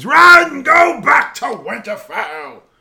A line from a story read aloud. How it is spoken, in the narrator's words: he screams